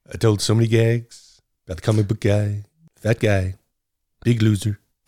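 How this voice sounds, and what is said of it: Imitates another person's voice. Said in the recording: “doing a Trump impersonation”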